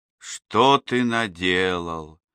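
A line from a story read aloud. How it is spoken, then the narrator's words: Quiet, calm mother. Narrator (Russian): тихо, без гнева сказала мать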